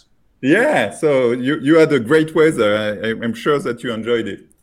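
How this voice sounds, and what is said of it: French accent. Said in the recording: “sorry for my French accent because I'm coming from France ... If you're from France, you have a French accent.”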